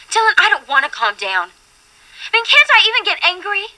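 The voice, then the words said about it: Yelling, upset. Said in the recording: “sorry I'm yelling”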